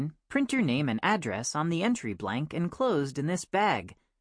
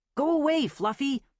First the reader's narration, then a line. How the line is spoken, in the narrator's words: I shouted